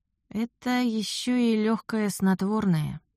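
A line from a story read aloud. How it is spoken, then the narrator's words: Choked mutter. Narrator (Russian): сдавленно пробормотала я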